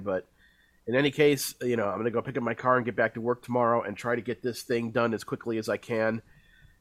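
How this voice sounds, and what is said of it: Congested, under-the-weather voice. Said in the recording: “can't tell by my voice, feeling a little bit under the weather, so I'm congested”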